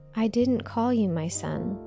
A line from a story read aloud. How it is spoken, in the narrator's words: Eli said